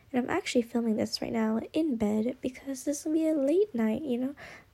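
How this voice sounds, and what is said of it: Low, quiet late-night voice. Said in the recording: “my voice is so low, because I'm just filming this at night”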